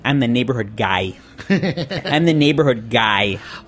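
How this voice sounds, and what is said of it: Put-on Chicago accent. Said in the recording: “in true Chicago, with a Chicago accent”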